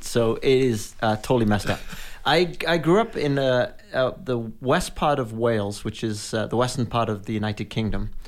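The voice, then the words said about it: Mixed British-American accent. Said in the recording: “my accent is really screwed up ... people think I have a British, sometimes Australian accent. When I'm in the U.K., people think I have an American accent.”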